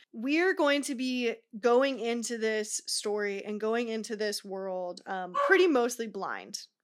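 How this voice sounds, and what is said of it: Put-on serious tone. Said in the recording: “I'm going to transition to my serious voice”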